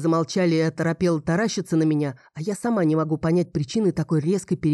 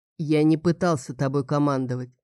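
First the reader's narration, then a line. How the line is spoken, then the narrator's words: Calm voice. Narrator (Russian): произнес Клаус спокойным голосом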